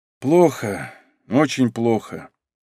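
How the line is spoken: Quiet, grim. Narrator (Russian): тихо вымолвил собеседник

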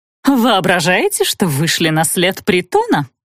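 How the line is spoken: Menacing question. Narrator (Russian): грозно вопросила Шароклякина

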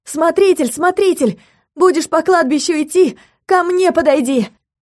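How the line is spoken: Near shout. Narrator (Russian): Теперь уже почти выкрикнула Юля

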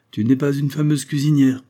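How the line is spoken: Amused exclamation. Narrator (French): s'écria Prosper qui la regardait d'un air amusé

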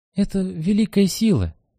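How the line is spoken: Timid. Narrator (Russian): говорит он робко

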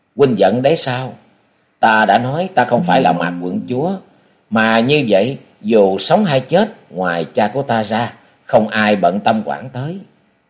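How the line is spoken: Giggling. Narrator (Vietnamese): Phụ Tiểu Quyên cười khúc khích

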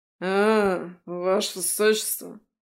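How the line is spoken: Guard's indistinct mumble. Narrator (Russian): Невнятно пробормотал стражник

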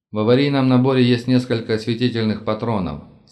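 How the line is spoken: Plain. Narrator (Russian): сказал я Сеймуру

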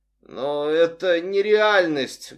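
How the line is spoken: Muffled, hollow voice. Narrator (Russian): глухо сказала женщина

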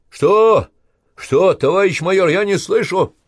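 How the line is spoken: Shouting into phone. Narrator (Russian): Иванцов кричал в трубку

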